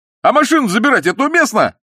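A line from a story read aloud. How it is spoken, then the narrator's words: Tactless shout. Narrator (Russian): закричал нетактичный Балаганов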